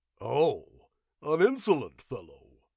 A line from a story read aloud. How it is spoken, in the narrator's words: sneered Demetrio's companion, a big man